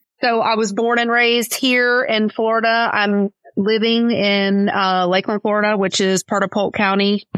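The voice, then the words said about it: Southern American accent. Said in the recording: “you can hear the accent. People always ask me, like, where are you from? You from Tennessee or South Carolina? ... my family's from Kentucky”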